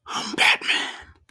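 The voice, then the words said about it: Raspy Batman character voice. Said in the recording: “That was the best I could do with a raspy voice.”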